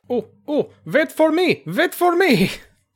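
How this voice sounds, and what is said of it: Poor put-on German accent. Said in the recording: “That's a terrible German accent.”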